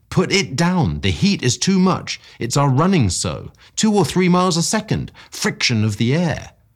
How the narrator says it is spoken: I cried

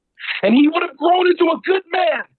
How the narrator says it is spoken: she shouted

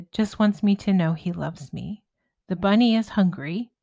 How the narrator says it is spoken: laughed

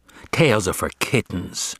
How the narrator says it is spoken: scoffed Julius

